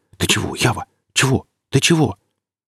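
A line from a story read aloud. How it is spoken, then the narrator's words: Whispering. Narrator (Russian): Гриф зашептал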